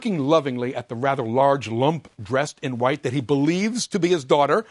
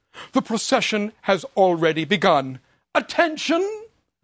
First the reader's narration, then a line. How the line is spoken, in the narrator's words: Ford proudly exclaims